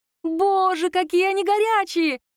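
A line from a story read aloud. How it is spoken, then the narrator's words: Squeal. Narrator (Russian): завизжала Оля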